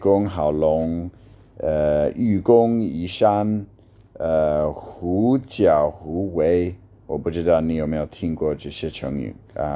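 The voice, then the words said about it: Strong foreign accent in Mandarin. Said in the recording (Chinese): “你需要接受我的外国人的发音...这么差的口音”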